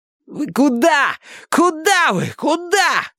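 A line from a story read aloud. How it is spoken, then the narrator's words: Shouting. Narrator (Russian): кричал им Милос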